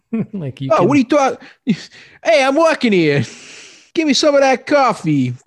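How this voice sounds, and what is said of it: Exaggerated New York accent. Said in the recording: “really bad New York accent ... no one in this movie can do a New York accent”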